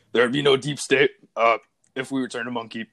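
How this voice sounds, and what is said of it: Imitates another person's voice. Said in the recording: “put on my Alex Jones voice ... I can't even do a good impression of him”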